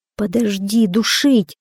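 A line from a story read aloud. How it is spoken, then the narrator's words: Braggart pleading. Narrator (Russian): взмолился хвастун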